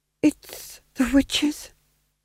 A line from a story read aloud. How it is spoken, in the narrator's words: whispered the Duke, to no one in particular